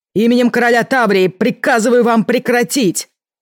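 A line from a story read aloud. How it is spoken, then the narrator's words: Shouting. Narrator (Russian): крикнул Ленард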